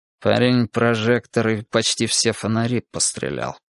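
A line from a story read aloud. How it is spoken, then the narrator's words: Through gritted teeth. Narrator (Russian): сквозь зубы сказал кардинал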